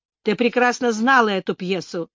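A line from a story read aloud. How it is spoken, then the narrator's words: Upset grumble. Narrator (Russian): проворчал расстроенный Майлз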